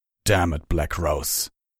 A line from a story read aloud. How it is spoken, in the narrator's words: Torado growled